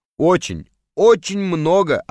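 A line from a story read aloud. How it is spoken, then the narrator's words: Plain. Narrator (Russian): ответил Мухаммед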